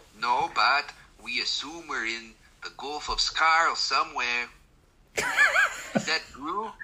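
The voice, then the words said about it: Character voice with Mexican-leaning accent. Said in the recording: “This accent, I'm not sure. ... It's skewing Mexican now.”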